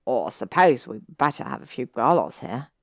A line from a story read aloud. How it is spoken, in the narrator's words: Ron said with a small snort